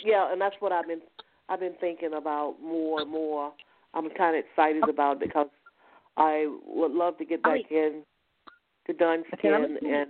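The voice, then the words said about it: East Coast American accent. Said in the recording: “you have a back east accent ... Back East accent ... from the East Coast”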